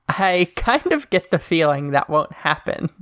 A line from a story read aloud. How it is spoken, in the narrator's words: Tsukumajuku said, laughing